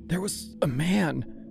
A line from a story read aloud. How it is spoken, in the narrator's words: she said, her voice strangled and thin